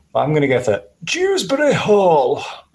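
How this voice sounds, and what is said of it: Funny, very posh voice. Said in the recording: “this in a funny voice ... I think of the poshest man in the world”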